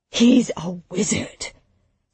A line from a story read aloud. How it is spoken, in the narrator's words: Samson whispered